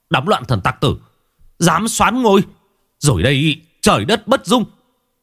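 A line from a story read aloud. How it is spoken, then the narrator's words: Official's loud shout. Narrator (Vietnamese): Quan thái phó hét to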